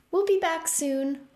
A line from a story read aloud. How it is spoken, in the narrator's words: Opal said happily